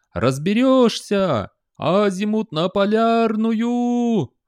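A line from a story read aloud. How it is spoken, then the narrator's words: Shouting from below. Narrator (Russian): орал снизу сержант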